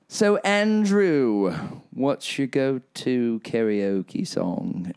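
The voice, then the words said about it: English accent. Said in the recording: “pardon my English accent.”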